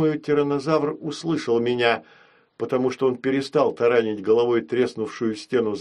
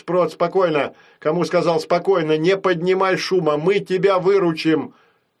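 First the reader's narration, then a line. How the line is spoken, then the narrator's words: Shouting. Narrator (Russian): крикнуть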